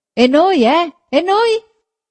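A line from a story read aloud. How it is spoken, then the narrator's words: Several voices shouting. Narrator (Italian): gridarono più voci dal carro che era avanti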